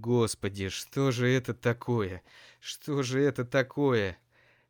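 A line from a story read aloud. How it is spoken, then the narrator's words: Groaning. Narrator (Russian): застонал Сеня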